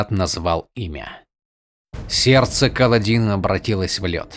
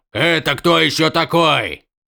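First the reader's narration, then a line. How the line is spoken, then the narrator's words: Shouted reply. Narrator (Russian): крикнул в ответ ему камень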